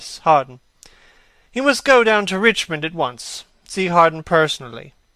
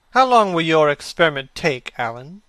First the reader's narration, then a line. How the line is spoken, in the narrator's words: He said in a calm, indifferent voice